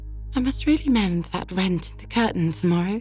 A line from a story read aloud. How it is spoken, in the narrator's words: she said anxiously